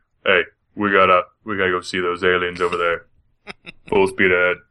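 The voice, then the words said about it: Imitates another person's voice. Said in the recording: “That's my Patrick Warburton impression. ... It was good. It was pretty good.”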